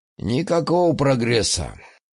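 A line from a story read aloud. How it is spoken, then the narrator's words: Sigh. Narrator (Russian): вздохнул он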